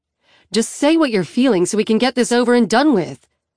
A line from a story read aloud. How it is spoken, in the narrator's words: Annie says sharply